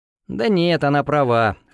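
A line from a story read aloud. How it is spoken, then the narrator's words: Wry snort. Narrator (Russian): хмыкнул я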